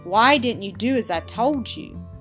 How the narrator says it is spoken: said sternly to Kit

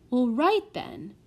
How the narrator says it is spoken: cried Solly

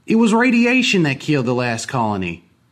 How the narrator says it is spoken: one man shouted at us

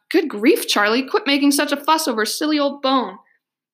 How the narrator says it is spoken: Jackie snapped

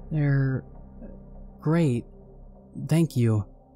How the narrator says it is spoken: my wife stuttered awkwardly

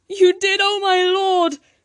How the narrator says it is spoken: Talia cried

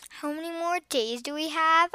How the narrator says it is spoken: I asked nervously

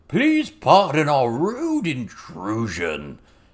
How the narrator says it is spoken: Toad Swallow hollered into the house

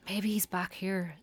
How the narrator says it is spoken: Steve whispered

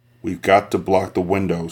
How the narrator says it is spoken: he said hoarsely

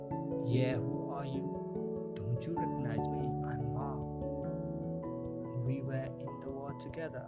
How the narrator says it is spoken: said

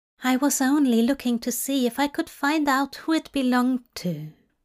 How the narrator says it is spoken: Aziraphale said quietly

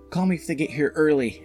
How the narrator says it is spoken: I yelled

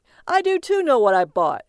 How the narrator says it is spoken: he called out to her

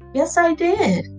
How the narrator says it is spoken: Nia said, once again excitedly

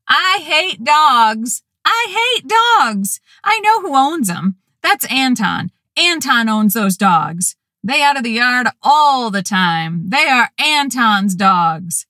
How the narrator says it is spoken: Through the half-open door, we could hear Elise, our loud teenage neighbor, yelling

